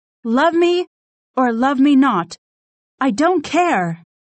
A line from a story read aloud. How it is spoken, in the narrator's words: shouted Katharina